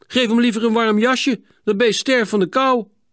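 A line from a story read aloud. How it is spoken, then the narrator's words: Indignant outcry. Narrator (Dutch): toen de man het rillende aapje weer zo ruw behandelde, riep Hielke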